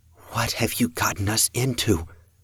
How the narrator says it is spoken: the elder sister asked, under her breath

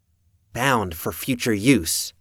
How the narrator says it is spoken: Maggie murmured

